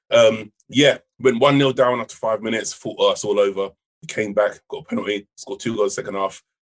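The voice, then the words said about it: Hoarse, croaky voice. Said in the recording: “croaky, so I might be in and out ... I was there live in the stadium on Saturday shouting. That's why my voice is kind of fucked at the moment.”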